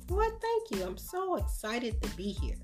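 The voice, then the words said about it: Enthusiastic, excited delivery. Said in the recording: “I can hear the enthusiasm in your voice.”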